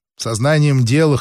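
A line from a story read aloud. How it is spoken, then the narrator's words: Snort. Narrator (Russian): хмыкнул Лукин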